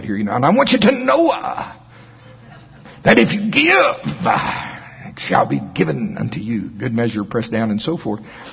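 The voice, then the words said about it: Imitates another person's voice. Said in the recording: “my Noah impression”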